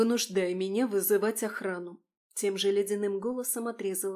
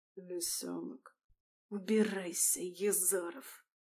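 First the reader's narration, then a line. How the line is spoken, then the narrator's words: Hoarse, slow, syllable by syllable. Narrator (Russian): Сипло, очень медленно, по слогам проговорила Алисия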